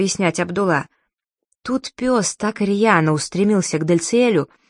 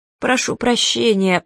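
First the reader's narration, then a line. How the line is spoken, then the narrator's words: Groaning. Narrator (Russian): простонал Абдулла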